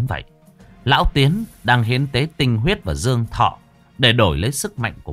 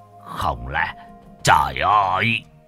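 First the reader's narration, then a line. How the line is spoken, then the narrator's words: Trembling voice. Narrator (Vietnamese): bá khá chân nhân run rẩy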